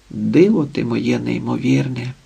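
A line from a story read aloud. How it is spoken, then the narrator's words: Tender whisper. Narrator (Ukrainian): шепотіла ніжно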